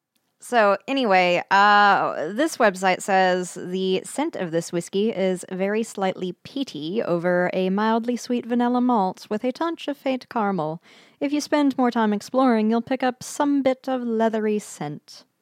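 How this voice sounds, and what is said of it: Pretentious mock British reading voice. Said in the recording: “that sounded very British. ... I didn't know if I was doing a British accent or what, but I was trying to read it very pretentious-like. ... Yeah, that's kind of British.”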